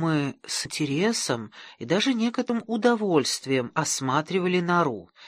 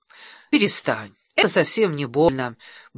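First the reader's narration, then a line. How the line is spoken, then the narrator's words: Cheerful soothing. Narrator (Russian): бодро приговаривала матушка Морки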